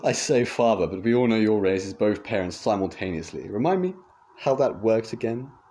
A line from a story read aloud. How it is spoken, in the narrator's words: The man chuckled